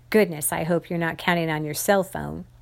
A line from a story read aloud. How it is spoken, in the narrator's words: Mayor Little said